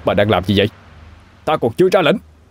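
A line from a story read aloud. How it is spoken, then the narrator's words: Loud shout. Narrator (Vietnamese): Kim Kha hét lớn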